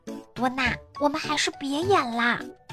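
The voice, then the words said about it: Quiet, shy whisper. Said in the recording (Chinese): “汉堡猫太难为情了，小声说”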